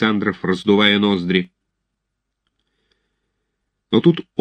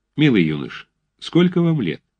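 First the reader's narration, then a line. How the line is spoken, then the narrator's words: Very calm. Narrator (Russian): Отто начал очень спокойно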